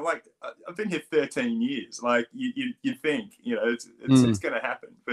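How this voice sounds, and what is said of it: Strong Australian accent. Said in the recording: “I still do have a pretty strong Australian accent.”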